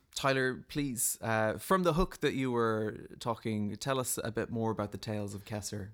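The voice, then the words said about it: Irish Cork accent. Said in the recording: “having the Irish accent, I have the Cork accent as well”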